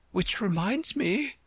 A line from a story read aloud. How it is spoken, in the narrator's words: the White Queen said, nervously